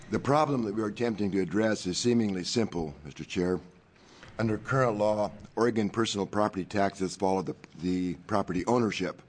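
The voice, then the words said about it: Hoarse, deep, croaky sick voice. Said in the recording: “I'm not imitating James Earl Jones this morning, and statistically, I'm not contagious from this distance ... it sounded like a frog in the throat there”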